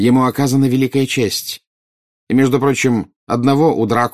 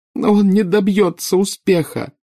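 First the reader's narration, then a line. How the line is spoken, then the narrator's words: Sobbing. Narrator (Russian): рыдала нарцисса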